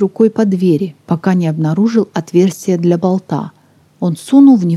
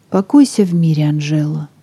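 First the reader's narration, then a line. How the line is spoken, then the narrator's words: Whisper. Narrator (Russian): прошептал он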